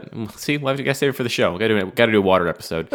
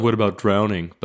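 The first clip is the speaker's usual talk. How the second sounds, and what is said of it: Sullen impression of a co-host. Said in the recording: “That was a good Matt impression. ... You just sound... Sullen.”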